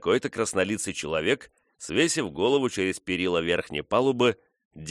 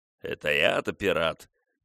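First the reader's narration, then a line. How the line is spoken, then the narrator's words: Muttering. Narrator (Russian): продолжал бормотать лодочник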